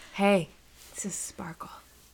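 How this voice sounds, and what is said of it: Sultry sex-line operator voice. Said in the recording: “your sex operator voice”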